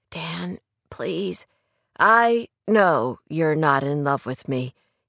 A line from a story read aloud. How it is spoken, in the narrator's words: he said quietly